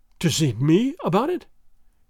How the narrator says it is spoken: gasped Don Carlos, with something of fear and a great deal of hope in his breast

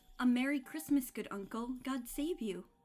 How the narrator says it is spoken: cried a cheerful voice

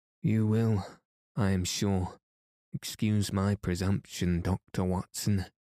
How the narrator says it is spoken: said he, as he came panting up

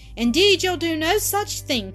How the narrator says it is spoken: cried Zillah

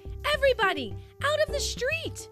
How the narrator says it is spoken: yelled Chase

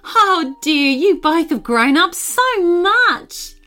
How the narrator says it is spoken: Aunt Jenna exclaimed

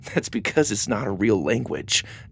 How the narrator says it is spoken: Doug chuckled

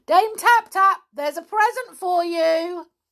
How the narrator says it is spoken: He yelled at the top of his voice

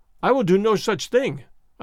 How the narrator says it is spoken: I cried

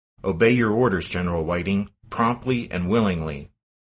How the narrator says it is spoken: to Whiting's protest, Stonewall barked

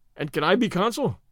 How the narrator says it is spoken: said Stedman cheerfully

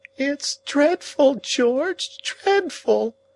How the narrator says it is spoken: the lady cried in an agony of sobs

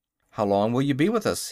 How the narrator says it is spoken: he asked

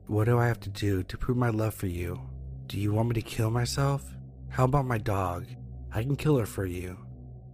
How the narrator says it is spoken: In a calm, monotone voice, she said

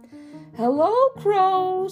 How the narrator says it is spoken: said Little Hedgehog excitedly

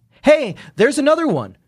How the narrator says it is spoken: shouted Jordan

